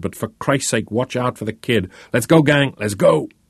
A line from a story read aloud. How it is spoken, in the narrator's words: yelled